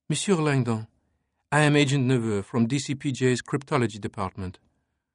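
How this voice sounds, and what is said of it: Soft muted French-English accent. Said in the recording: “Her words curved richly around her muted Anglo-Franco accent.”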